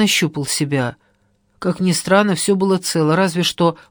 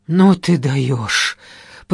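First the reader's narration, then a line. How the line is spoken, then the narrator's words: Stunned exhale. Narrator (Russian): потрясенно выдохнул мужик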